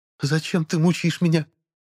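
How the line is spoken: Squeak. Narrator (Russian): пискнула Милария

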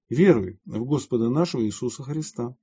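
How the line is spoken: Plain. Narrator (Russian): сказал святый

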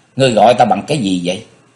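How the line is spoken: Cold. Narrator (Vietnamese): Diệp Linh Tô lạnh lùng nói

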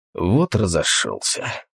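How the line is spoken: Mutter. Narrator (Russian): пробормотал охотник

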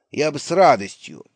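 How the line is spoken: Said with a snort. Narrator (Russian): сказал папаша Бассет и фыркнул

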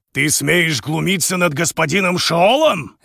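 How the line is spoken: Fierce intimidating bark. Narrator (Russian): рявкнул Увэйшэнь так, что невольно захотелось втянуть голову в плечи и стать незаметнее

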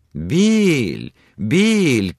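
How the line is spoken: Lively young woman shouting. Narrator (Russian): кричала одна из них, живая молодая брюнетка

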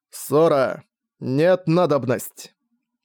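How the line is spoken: Slightly distorted but clear announcement. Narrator (Russian): объявил он несколько искаженным, но вполне понятным голосом

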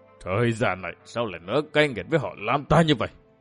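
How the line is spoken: Stunned, grief-stricken muttering. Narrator (Vietnamese): Lam Khải Trường chết điếng người, ôm ngực lẩm bẩm

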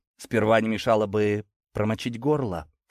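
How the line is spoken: Dry. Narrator (Russian): сухо ответил

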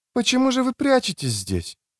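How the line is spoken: Gentle question. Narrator (Russian): мягко спросила Биквин

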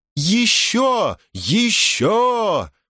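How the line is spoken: Group shouting. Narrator (Russian): кричали они

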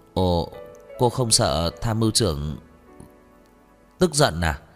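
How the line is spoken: Stammering. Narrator (Vietnamese): Chu Bằng lắp bắp

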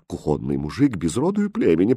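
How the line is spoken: Babbling. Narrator (Russian): пролепетала королева

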